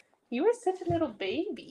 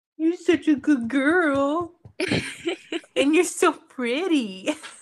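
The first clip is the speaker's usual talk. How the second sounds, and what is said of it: Silly goose character voice. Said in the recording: “talk in my goose voice”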